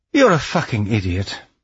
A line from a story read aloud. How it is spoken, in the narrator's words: the old woman sighed